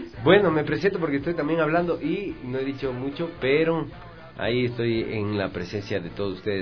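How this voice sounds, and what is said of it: Radio announcer voice. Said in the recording (Spanish): “Tiene voz de locutor usted también, ¿no?”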